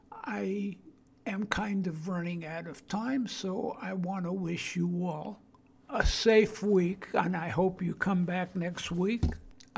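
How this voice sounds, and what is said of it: Brooklyn accent. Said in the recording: “I still maintain my Brooklyn accent”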